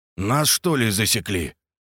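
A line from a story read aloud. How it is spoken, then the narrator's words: Wary mutter. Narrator (Russian): настороженно пробормотал Андрей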